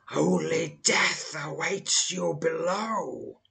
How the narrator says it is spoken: hisses the sinister apparition of the hooded sorcerer

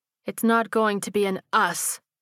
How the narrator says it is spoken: she said firmly

